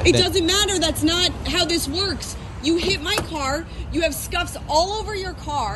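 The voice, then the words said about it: Angry yelling. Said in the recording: “She's yelling ... she's freaking out”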